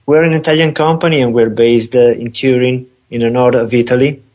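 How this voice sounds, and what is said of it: Italian accent. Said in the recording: “this Antonio voice seems to have a bit of an Italian accent ... probably a bit more than just a bit of accent”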